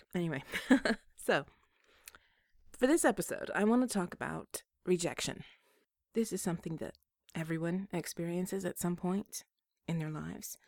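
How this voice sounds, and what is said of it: Scratchy voice from a cold. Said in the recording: “I am fighting off a cold, so if my voice is a little scratchy”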